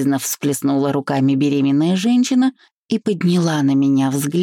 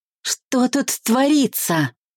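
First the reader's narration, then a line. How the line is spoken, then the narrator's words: Scream in unrecognizable voice. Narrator (Russian): закричала не своим голосом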